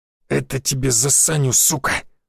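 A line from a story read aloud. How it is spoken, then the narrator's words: Halberdier's growl. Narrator (Russian): прорычал алебардист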